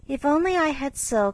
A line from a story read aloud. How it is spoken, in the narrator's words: sighed Meg